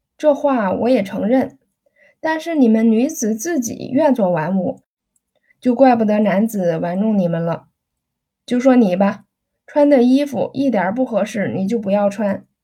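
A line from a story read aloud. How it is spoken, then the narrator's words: Laughing. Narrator (Chinese): 彭震笑道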